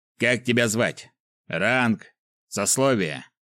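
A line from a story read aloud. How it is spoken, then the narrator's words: Barked. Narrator (Russian): рявкнул он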